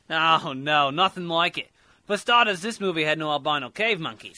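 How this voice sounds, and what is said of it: Fake Australian accent. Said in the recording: “That is the most fake Australian accent I've ever heard.”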